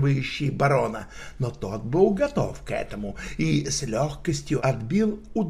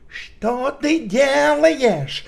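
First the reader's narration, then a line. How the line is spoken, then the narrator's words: Shouting. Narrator (Russian): крикнул барон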